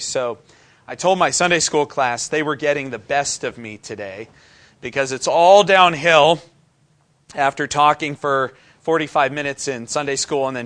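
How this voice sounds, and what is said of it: Strained, failing voice. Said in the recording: “speak with a strained voice ... I lose my voice”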